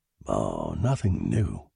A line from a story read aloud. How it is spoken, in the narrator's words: said in a low voice